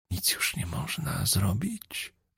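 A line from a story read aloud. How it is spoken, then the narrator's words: Whispered question. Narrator (Polish): zapytał szeptem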